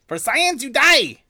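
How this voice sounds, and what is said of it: Bad character voice impression. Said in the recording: “You're both bad at that impression. You're just disgustingly bad at that impression. Just horrible.”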